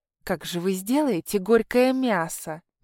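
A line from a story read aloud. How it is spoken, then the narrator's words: Doubtful hiss. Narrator (Russian): недоверчиво зашипел Тумба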